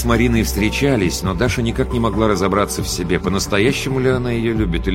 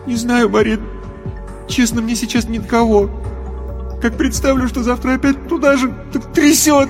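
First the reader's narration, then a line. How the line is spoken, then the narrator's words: Crying turning into sobs. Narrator (Russian): Рев перешел во всхлипывание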